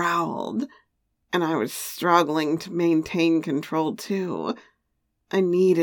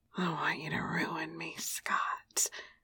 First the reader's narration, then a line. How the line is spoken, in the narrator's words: I whispered